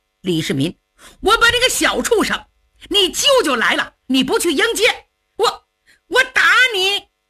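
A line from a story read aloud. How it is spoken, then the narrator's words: Angry shout. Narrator (Chinese): 窦建德气势汹汹地 冲着李世民喊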